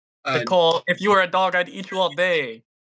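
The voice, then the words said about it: Put-on Asian accent. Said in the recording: “That was my Asian accent.”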